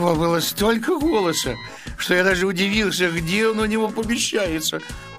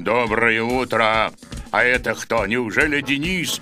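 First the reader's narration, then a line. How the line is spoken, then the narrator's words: Terrible deep bass. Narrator (Russian): сказал ужасным басом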